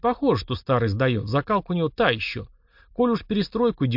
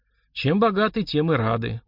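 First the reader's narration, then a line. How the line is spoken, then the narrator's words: Glum recitation. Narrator (Russian): уныло продекламировал Удалов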